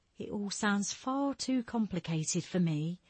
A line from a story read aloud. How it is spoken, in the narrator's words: Stella said meekly